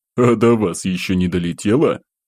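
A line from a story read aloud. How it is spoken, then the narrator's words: Uncontrollable guffaw. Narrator (Russian): Не сдержавшись, хохотнул уже я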